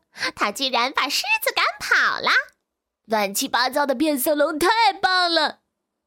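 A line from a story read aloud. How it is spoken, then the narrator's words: Laughing monkey. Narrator (Chinese): 猴子大笑着说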